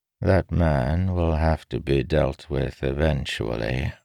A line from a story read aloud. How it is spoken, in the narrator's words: Arvin said quietly, so only Jack could hear